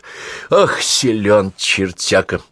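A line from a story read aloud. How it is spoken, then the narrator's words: Loud exhale. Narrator (Russian): шумно выдохнул наводчик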